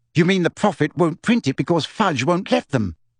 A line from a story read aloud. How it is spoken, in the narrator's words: said Hermione irritably